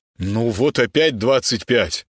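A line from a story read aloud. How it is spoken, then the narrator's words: Annoyed exhale. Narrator (Russian): Гена раздосадованно выдохнул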